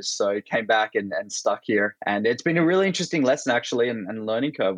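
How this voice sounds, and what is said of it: Australian accent. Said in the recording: “I'm originally Australian, that's my accent”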